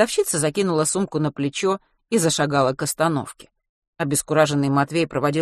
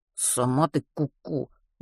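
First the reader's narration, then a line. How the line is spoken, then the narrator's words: Grumbling under breath. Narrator (Russian): буркнул Матвей себе под нос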